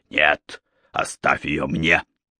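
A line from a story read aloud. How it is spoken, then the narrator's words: Growled. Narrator (Russian): прорычал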